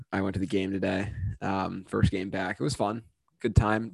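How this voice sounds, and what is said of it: Slightly crackly voice. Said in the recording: “if my voice is a little crackly.”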